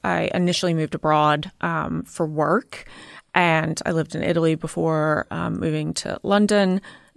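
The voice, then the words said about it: American accent with English tinge. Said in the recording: “you've got an accent. You are from the US ... I still have, yes, some of my accent. But everyone in America will say that I sound English.”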